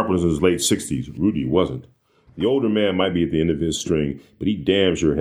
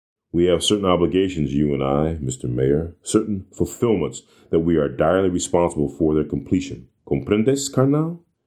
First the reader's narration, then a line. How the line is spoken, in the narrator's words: Wearily, Sharp began